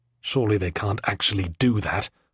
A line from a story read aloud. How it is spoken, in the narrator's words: I whispered to Warden, practically mouthing the words